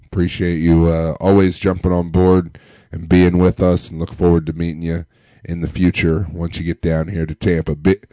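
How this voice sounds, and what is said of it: Deep, sick-sounding voice. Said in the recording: “Powering through sick ... listen to my voice. Listen to how good I sound on the podcast. It's because I'm not feeling well. I got the deep voice”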